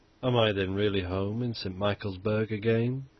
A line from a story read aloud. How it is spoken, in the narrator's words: he murmured